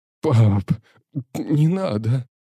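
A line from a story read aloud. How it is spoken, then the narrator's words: Sobbing in pain. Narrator (Russian): всхлипывая то ли от боли, то ли от слез, говорил Ярослав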